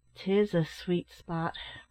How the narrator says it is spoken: remarked his uncle, in a low, sad tone

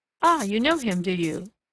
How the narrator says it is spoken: laughed the village innkeeper

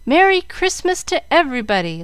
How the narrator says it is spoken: the children, not knowing whether to laugh or to cry, shouting

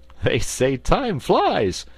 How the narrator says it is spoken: laughed Button-Bright

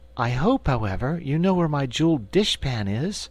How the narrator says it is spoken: said the Cookie Cook anxiously

